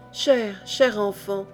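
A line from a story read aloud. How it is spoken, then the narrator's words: Countess murmuring. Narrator (French): murmura la comtesse Isor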